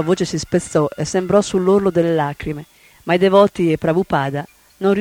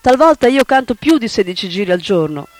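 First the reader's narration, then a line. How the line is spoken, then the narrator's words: Childlike outburst near tears. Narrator (Italian): sbottò come una bambina che sta per piangere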